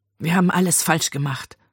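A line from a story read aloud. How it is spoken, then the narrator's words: Murmured. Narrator (German): murmelte sie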